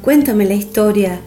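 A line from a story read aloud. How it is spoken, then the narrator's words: Enthusiastic exclamation. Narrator (Spanish): exclamó Linkoyan con gran entusiasmo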